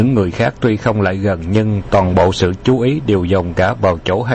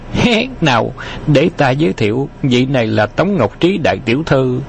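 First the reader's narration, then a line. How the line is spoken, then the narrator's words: Smiling speech. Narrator (Vietnamese): Khâu Trọng mỉm cười nói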